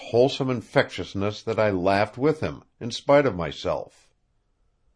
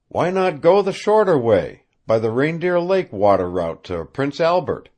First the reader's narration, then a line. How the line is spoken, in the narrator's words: asked Thornton